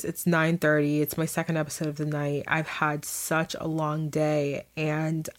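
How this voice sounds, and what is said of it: Tired, low-energy voice. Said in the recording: “hear it in my voice. I sound really tired ... I feel myself sounding super tired”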